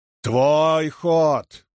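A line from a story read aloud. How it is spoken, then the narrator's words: Thundering. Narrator (Russian): прогремел Андат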